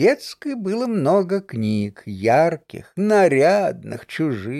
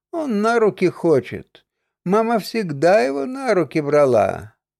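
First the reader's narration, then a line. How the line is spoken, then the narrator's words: Sighing, grown-up tone. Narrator (Russian): сестра, вздохнув, совершенно по-взрослому сказала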